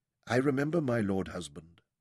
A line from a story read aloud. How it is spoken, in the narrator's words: she said softly